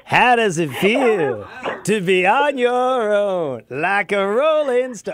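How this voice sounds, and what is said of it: Imitates another person's singing voice. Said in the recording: “Very good impersonation.”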